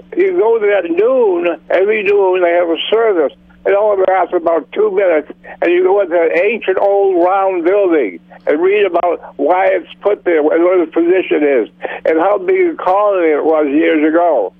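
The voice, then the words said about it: Massachusetts accent. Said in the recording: “Massachusetts ... I thought I saw the accent.”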